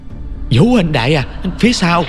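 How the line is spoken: Urgent shout. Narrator (Vietnamese): Anh ta hét lên

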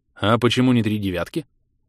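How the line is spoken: Composed question. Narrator (Russian): очень собранным голосом поинтересовались у меня

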